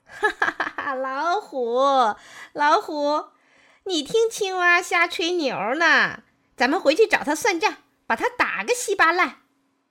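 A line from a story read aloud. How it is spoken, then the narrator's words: Laughing loudly. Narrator (Chinese): 狐狸听了，哈哈大笑，说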